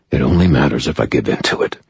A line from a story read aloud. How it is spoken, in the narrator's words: I replied, more harshly than I meant to